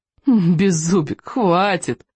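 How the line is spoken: Pleading through laughter. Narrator (Russian): взмолился между приступами хохота

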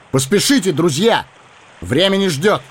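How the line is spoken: Shout. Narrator (Russian): Арагорн крикнул

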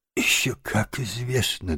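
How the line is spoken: Trembling small voice. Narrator (Russian): дрожащим голоском подтвердил крот

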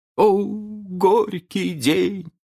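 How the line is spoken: Old man moaning. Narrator (Russian): простонал старкий джентльмен

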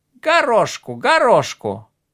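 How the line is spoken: Raven shouting again. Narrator (Russian): закричал снова ворон

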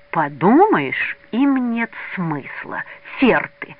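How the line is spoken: Hissing. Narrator (Russian): шипел Мазин

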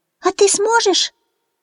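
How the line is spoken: Squeaky chick voice. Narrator (Russian): пискнул цыпленок Фью

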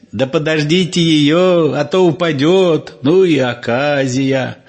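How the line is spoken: Laughing. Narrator (Russian): Химка в окно, смеясь

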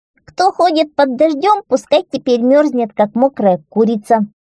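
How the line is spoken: Loud shout, smallest one. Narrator (Russian): четвертый, самый маленький, громко крикнул

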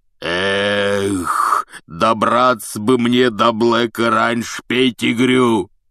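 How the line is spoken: Roaring. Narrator (Russian): взревел Хагрид

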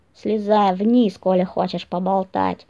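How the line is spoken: Sullen grumble. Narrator (Russian): хмуро проворчал Миккель

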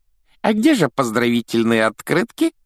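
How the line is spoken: Giggling. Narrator (Russian): хихикнул Дадли

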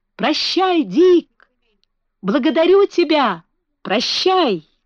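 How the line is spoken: Child shouting. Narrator (Russian): Маленький лорд Фаунтлерой кричал

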